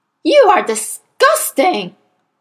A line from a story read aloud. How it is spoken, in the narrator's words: the Trunchbull bellowed